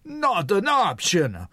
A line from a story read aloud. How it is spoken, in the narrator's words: Mario screamed, and his Italian accent sounded heavier than usual